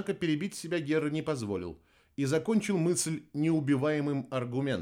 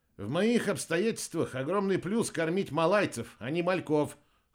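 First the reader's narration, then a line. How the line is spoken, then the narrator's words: Snorting wryly. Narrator (Russian): хмыкнул Герра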